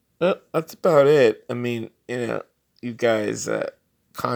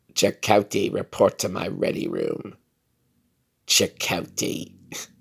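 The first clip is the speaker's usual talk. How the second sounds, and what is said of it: Kate Mulgrew as Captain Janeway impression. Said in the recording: “one last impersonation, mimicry... the great Kate Mulgrew, or something close to her, as Captain Catherine Janeway of Star Trek Voyager”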